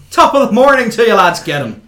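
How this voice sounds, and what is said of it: Put-on Irish accent. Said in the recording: “your Irish accent”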